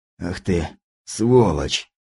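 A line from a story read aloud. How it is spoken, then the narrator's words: Forced out, strained. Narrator (Russian): выдавил он из себя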